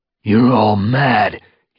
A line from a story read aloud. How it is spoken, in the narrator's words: he spat